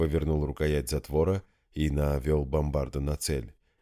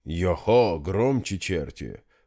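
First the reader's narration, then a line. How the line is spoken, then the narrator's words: Deep bass, muffled. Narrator (Russian): пробасил из багажного отделения танк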